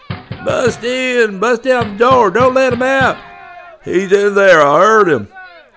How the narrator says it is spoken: cries were mixed with shouts of warning and advice

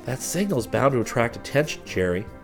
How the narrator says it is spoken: Chris muttered

